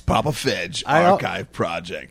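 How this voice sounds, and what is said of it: Radio announcer voice. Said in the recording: “You did that well. ... I kind of kicked in my radio voice there”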